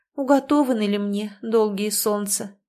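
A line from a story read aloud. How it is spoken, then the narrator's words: Sorrowful sigh. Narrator (Russian): горестно вздохнула Васса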